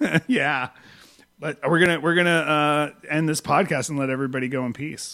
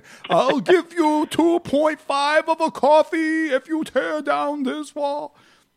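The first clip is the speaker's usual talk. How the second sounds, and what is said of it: Imitates another person's voice. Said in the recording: “my great impression of Bernie”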